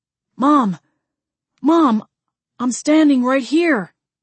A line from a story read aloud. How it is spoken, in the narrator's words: Jamie cried